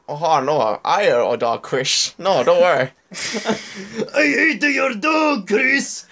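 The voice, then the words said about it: Put-on mock Japanese accent. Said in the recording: “Do like a racist Japanese accent for us ... I can't do the Japanese one.”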